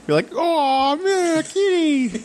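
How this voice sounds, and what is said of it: High-pitched falsetto silly voice. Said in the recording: “That's my impression of you... you didn't know my voice went that high... I have a lot of falsettos... You do silly voices.”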